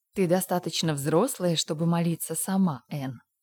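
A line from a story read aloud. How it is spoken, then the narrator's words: Plain. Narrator (Russian): сказала она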